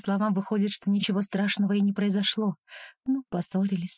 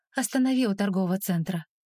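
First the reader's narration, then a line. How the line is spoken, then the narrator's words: Flat emotionless tone. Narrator (Russian): прошу уже безэмоциональным тоном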